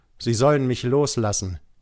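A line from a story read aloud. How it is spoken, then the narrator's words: Called out. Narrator (German): rief ich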